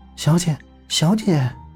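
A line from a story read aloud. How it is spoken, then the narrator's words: Whispering. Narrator (Chinese): 小蝶小声道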